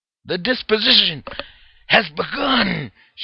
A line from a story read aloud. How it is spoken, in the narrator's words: shouted Orlando